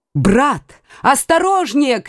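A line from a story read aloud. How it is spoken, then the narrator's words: Shouted. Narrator (Russian): крикнула Маргарита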